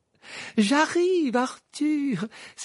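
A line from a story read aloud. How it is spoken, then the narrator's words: Exclaiming. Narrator (French): s'écria Madame Wesley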